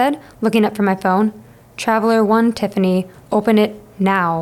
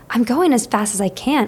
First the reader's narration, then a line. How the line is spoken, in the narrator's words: I hissed back